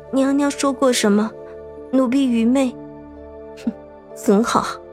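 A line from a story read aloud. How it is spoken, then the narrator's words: Soft. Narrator (Chinese): 杏儿轻声道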